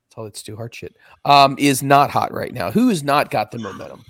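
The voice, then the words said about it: Strained, hoarse, fading voice. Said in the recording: “I'm losing my voice.”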